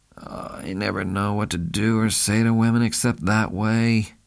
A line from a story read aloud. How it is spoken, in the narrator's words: grumbled